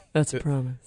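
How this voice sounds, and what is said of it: Sexy voice like Kathleen Turner. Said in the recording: “I said that in my sexy voice. ... Is that your sexy voice, yeah. Kathleen Turner?”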